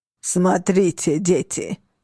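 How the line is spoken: Hoarse wheeze. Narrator (Russian): прохрипел он

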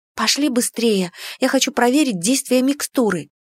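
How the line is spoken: Whispered reply. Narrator (Russian): прошептала я в ответ

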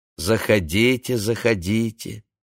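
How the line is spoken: Plain. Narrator (Russian): сказал ей Яков

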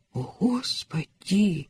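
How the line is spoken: Whispered. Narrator (Russian): прошептал Адам

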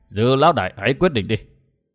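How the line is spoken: Sighing, slow speech. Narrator (Vietnamese): Một người áo đen khẽ thở dài chậm rãi nói

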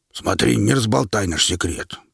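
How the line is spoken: Grumbling. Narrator (Russian): пробурчал Квас

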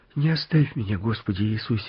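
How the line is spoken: Pleading prayer. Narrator (Russian): взмолился Мартынка

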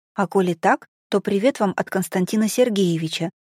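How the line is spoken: Wary mumble. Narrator (Russian): бормочет незнакомец, кидая вокруг опасливые взгляды

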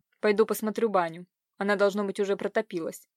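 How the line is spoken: Dry remark. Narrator (Russian): Бросив на нее ехидный взгляд, он сухо заметил

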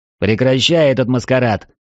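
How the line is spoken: Harsh bark. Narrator (Russian): рявкнул

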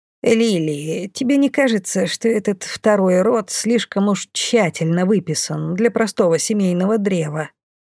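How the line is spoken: Muttering. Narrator (Russian): Пробормотала Бумба

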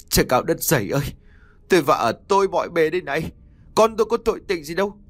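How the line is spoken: Crying, wailing. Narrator (Vietnamese): Vừa kêu vừa khóc, anh Phúc liền mếu máo nói

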